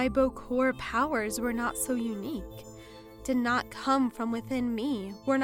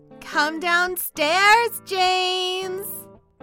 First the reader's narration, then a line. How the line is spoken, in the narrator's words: Chloe called out rather much too loudly